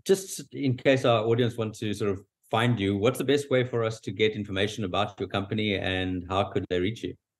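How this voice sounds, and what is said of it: South African accent. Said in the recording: “My accent is South African”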